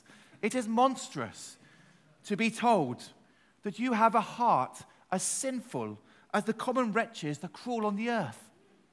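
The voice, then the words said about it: Put-on English accent. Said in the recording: “I've got my English accent, I can do this.”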